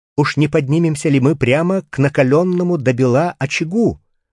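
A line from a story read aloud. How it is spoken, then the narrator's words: Exclaiming in rising heat. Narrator (Russian): воскликнул я, когда жара еще усилилась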